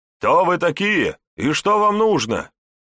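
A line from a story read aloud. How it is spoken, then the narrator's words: Distant shout after pause. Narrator (Russian): После некоторой задержки крикнули с надвратной башни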